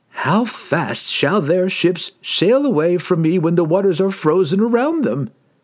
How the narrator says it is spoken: He laughed again, but this time more seriously, more dangerously

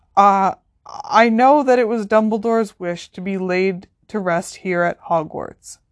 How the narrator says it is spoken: said Professor McGonagall, losing a little of her briskness as her voice shook

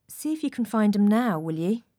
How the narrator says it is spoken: came softly after us and, touching my shoulder again, said

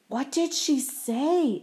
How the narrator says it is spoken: Art whispered to Richie

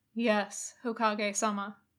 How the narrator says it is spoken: Kakashi said firmly

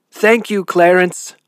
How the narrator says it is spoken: shouted

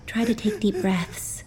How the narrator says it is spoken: I murmured

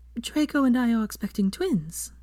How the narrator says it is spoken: Hermione said happily, as if she were imparting this information to her cherished aunt

